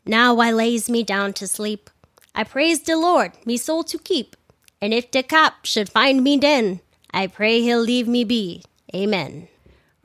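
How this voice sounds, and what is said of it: Deliberately bad New York accent. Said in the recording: “my super terrible New York accent”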